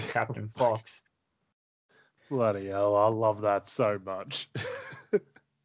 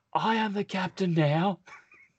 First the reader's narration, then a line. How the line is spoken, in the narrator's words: shouting